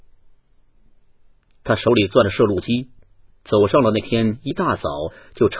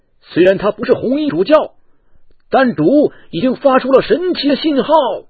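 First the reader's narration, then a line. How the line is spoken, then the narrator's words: Shouting. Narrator (Chinese): 另一位主教喊道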